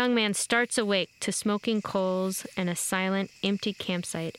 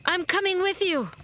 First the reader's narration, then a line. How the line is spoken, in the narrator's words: after some hair stroking and cooing sounds from the elder, the shaman yells